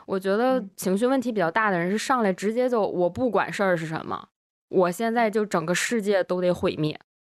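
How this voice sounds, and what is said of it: Strong Northeastern Chinese accent. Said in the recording (Chinese): “你现在怎么呃东北口音这么重”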